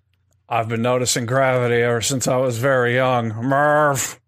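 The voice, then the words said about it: Imitates another person's voice, locked jaw. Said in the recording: “do the perfect Murph voice ... Just like that impersonation ... you just like have to lock your mouth while you're talking and never move your jaw”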